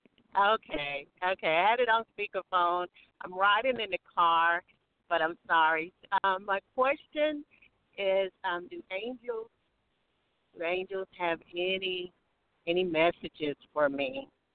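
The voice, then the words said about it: Noticeable, pleasing accent. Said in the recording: “I love your accent. That's gorgeous.”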